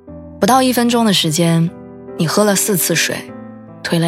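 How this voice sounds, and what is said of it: Usual voice. Nothing is said of it.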